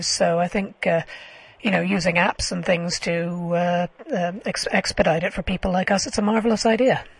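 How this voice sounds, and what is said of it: Voice that sounds asthmatic. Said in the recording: “You can probably tell from my voice I'm asthmatic.”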